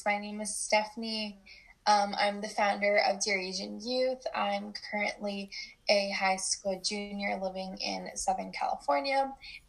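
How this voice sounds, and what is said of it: Rough, groggy-sounding voice. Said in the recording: “my voice sounds gross ... it's kind of bad”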